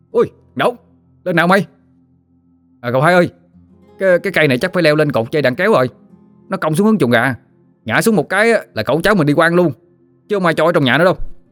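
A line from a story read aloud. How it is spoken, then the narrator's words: Shouting. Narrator (Vietnamese): Thằng Đỏ la lên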